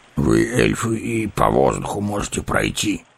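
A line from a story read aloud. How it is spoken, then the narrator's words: Grumbling. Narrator (Russian): проворчал гном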